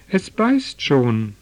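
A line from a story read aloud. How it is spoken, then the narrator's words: Excited group calling out. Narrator (German): riefen sie aufgeregt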